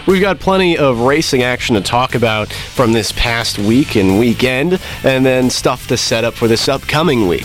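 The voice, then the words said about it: Unwell voice lacking usual gusto. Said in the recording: “You can probably hear it in my voice. It's not quite as, doesn't have quite as much gusto as the intro today. I'm feeling a little under the weather”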